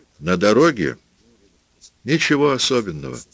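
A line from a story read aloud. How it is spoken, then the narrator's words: Plain. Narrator (Russian): сказал он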